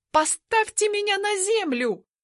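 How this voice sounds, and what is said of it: Shouting. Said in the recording (Russian): “Ору”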